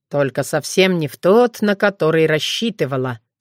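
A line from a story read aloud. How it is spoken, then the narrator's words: Falcon's amused snort. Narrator (Russian): хмыкнул сокол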